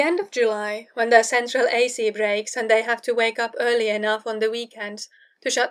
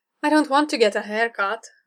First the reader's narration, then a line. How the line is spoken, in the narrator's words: Foggy says mournfully